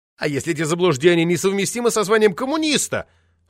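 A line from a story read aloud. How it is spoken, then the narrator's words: Pained cry. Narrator (Russian): вскрикнул, как от боли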